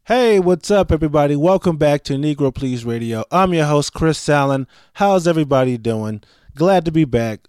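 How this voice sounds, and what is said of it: Weird, deep late-night-radio voice. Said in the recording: “my voice sounds kind of weird ... it's getting worse slowly ... sorry for sounding extra sexy this week ... I should run like a late night radio jazz show”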